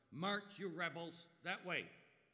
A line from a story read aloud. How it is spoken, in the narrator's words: a gravelly voice bellowed